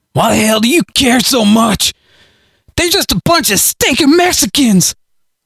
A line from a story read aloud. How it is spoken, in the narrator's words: Harley shouted